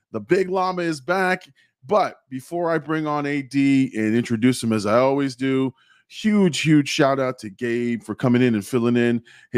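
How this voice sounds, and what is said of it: Slightly hoarse voice. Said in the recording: “My voice is a little hoarse right now.”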